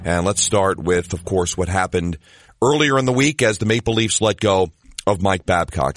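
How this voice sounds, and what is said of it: Sick, under-the-weather voice. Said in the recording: “as you can probably tell by my voice. A tad bit under the weather ... as you probably can tell by my voice. A little bit under the weather”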